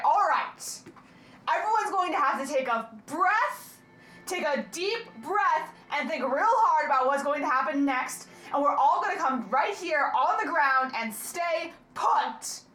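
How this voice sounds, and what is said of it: Stern mom voice. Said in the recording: “put on my best mom voice”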